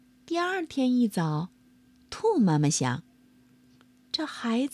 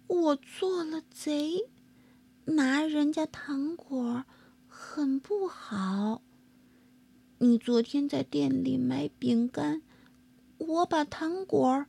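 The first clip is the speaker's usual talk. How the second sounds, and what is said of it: Quiet, soft-spoken voice. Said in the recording (Chinese): “米菲小声说”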